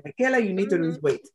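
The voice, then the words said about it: St. Croix island accent. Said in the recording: “she's an island woman. She was from St. Croix, so she also had the accent.”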